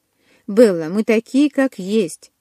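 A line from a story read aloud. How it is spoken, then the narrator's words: Calm. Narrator (Russian): спокойно проговорил Каллен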